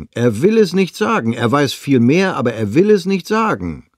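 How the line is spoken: Calling out. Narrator (German): rief Kesting

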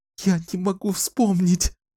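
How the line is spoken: Sobbing. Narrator (Russian): зарыдала она

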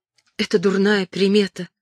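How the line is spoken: Whisper. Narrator (Russian): прошептала она

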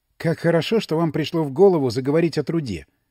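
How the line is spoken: Plain. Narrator (Russian): сказала Мельникова

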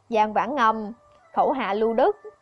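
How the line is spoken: Cold. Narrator (Vietnamese): lạnh lùng nói

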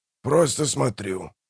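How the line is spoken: Grumbled. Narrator (Russian): пробурчал Манфред

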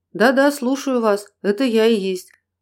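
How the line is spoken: Calm reply. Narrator (Russian): также спокойно ответил

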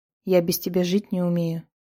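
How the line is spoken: Plain. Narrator (Russian): ответил ей юноша

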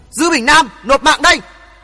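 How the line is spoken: Shouting. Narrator (Vietnamese): Cùng tiếng thét đó

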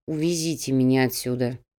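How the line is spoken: Grunted. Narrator (Russian): буркнул Кауфман

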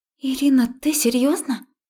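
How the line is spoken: Frightened girl babbling. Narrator (Russian): испуганно пролепетала девушка

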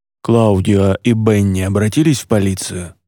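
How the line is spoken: Deep-voiced question. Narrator (Russian): спросил Тио Айзек, легко прорезая болтовню глубоким голосом

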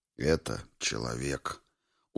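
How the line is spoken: Weary. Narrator (Russian): устало произнес Павличенко

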